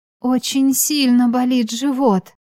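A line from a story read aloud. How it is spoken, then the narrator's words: Moaning, young tender voice. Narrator (Russian): застонала я и поразилась своему молодому, нежному голосу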